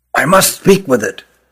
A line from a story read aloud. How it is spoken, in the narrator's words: whispered Rugum